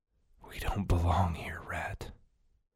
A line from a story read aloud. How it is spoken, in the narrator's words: managed to whisper